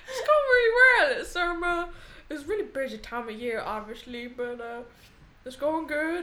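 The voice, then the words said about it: Put-on American Southern accent. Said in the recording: “Santa, why are you Southern?”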